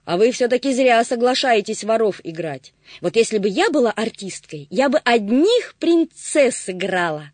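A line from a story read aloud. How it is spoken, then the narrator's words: Exclaiming. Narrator (Russian): воскликнула Агата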